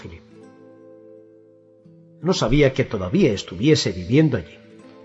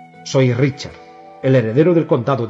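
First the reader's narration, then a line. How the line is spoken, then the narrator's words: Boy's cracking teenage voice. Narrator (Spanish): dijo el muchacho, con la voz quebrada de los adolescentes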